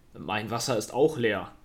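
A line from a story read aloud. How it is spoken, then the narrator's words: Disappointed. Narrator (German): sagte er enttäuscht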